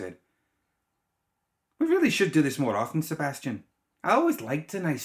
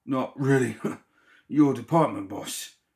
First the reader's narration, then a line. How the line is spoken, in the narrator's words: Sebastian grunted